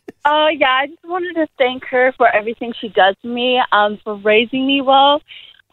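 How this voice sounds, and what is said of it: American accent. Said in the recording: “Why have you got an American accent”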